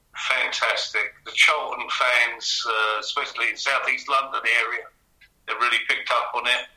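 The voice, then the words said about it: South East London accent. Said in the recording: “you maintain your broccoli accent”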